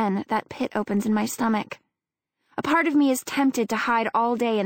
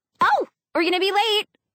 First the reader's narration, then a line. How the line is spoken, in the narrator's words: Allie squeals